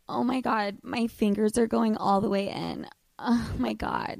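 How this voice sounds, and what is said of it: Breathy seductive voice with moan. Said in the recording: “emphasis on the sexy voice ... you could even throw in like a slight moan”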